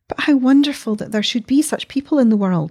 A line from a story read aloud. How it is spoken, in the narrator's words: she cried, trembling very much